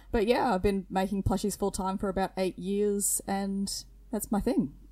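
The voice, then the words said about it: Thick Australian accent. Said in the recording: “I'm a full-time plush maker from Queensland, Australia. So I hope my accent's not too thick”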